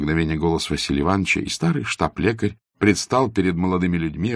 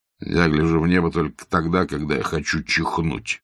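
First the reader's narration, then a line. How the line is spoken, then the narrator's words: Grumbled. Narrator (Russian): проворчал Базаров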